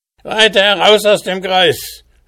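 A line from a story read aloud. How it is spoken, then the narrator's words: Dwarf shouting. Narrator (German): schrie der Zwerg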